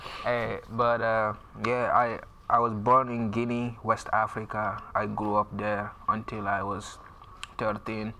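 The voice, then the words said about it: West African accent. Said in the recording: “You coming over from Africa? How many kids made fun of your accent?”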